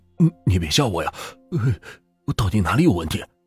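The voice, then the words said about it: Quiet, frightened stammering voice. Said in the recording (Chinese): “小声的说”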